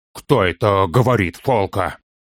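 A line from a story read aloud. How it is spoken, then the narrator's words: Hoarse with agitation. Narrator (Russian): Как всегда, хрипя от волнения, проговорил Торин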